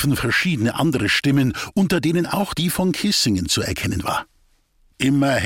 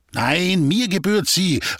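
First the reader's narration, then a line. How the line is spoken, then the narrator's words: Calling out. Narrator (German): rief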